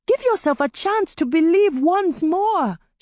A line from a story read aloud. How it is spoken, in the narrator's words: she pleaded